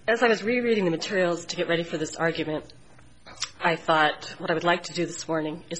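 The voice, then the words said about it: Snuffly voice with a cold. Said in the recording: “snuffling through this. I have a bad cold this morning.”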